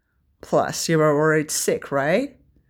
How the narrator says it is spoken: Arthur smiled teasingly

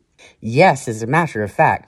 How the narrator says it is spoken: I replied

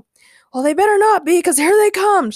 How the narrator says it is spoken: shouted Ray

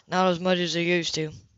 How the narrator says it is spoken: said flatly

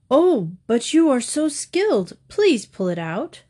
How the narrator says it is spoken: groaned the donkey

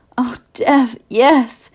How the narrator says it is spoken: she gasped between thrusts

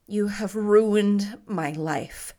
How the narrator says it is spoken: said Roy bitterly

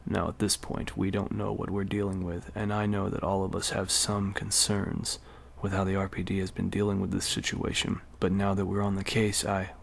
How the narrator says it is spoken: The captain lowered his voice and continued

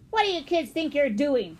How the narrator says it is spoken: the man growled

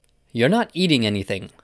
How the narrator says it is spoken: said Marilla sharply

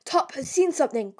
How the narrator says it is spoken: cried one of the men

